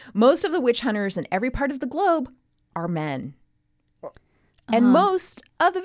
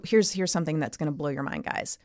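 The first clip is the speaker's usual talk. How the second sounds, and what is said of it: Sarcastic delivery. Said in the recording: “I'm being sarcastic.”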